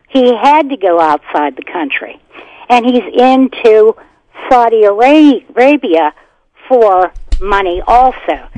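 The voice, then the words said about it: Loud, yelling voice. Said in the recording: “I'm sorry if I'm yelling.”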